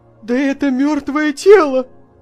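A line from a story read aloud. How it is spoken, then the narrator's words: Cry of alarm. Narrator (Russian): вскрикнул он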